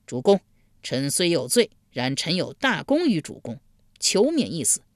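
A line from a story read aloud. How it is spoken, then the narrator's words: Loud plea. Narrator (Chinese): 贾华高声呼道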